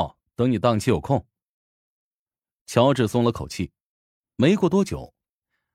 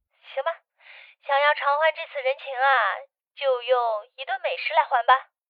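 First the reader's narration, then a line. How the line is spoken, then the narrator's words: Joking. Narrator (Chinese): 安子夏开玩笑说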